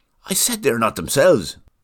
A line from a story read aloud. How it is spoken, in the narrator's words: muttered Cathy